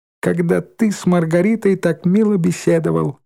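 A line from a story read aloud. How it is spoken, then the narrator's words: Laughing. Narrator (Russian): рассмеялась Шмакова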